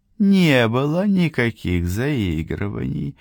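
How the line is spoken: Purring. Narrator (Russian): промурлыкала Анеку

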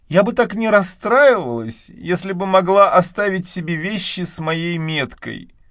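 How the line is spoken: Sad. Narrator (Russian): печально поглядев вокруг, добавила

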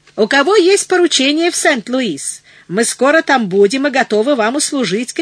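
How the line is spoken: Shouting. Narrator (Russian): кричал один

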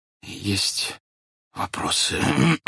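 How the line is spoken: Soundless wheeze, then hoarse. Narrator (Russian): беззвучно просипел статский советник, прочистил горло и повторил, хоть и хрипло, но уже разборчиво

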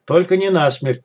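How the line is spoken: Hurried shout. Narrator (Russian): торопливо выкрикнул кот

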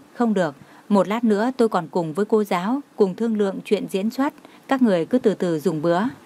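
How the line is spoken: Smiling. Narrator (Vietnamese): Như Mạt mỉm cười nói

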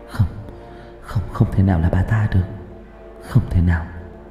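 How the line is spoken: Frightened mumbling. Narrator (Vietnamese): Hà sợ hãi, miệng vẫn lẩm bẩm

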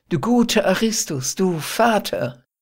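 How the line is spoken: Delighted girl's cry. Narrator (German): rief das Mädchen ganz entzückt

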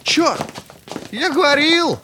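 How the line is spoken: Shouting with a grin. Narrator (Russian): закричал Каспа ... расплываясь в улыбке

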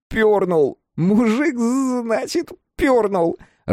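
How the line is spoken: Sobbing. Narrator (Russian): рыдал Торг

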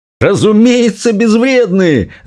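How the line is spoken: Shouted. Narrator (Russian): закричал мистер Бакет

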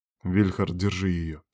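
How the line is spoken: Quiet confident command. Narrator (Russian): скомандовал шеф тихо, но уверенно

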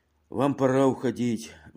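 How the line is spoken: Sighing male. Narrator (Russian): вздохнул он

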